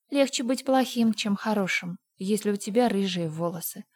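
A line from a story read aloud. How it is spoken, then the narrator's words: Sad. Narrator (Russian): сказала Энн печально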